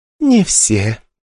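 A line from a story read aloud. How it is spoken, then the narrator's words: Purring young woman. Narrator (Russian): промурлыкала девушка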